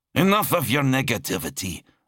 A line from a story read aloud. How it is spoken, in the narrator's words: Adamar snapped